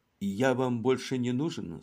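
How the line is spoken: Plain. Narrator (Russian): спросил комиссар Ламбиот

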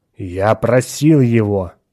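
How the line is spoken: Angry. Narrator (Russian): сердито продолжал Атон

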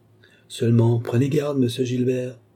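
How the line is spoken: Threatening. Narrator (French): continua Nicole d'un ton de menace

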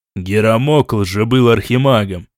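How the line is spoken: Continued grumbling. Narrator (Russian): продолжал ворчать Ренуальд

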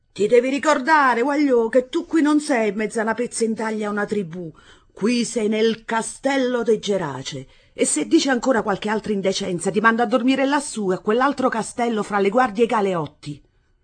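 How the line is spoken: Feigned angry shout. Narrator (Italian): armandosi di una collera ostentata, le gridò

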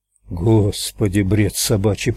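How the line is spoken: Muttered. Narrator (Russian): пробормотал толстяк

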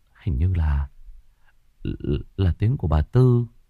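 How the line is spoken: Muttering. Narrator (Vietnamese): Cậu Đức lẩm bẩm

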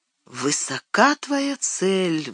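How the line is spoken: Sighing. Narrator (Russian): вздохнула Гилрайн

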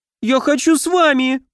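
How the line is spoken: Tearful squeak. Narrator (Russian): пропищал Фейри, размазывая по лицу слезы

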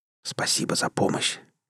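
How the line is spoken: Quiet whisper. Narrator (Russian): тихо шепнул ей

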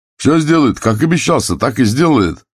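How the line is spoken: Shouting. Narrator (Russian): кричал прораб

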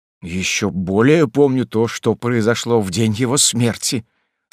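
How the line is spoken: Trembling voice. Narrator (Russian): сказал генерал дрогнувшим голосом

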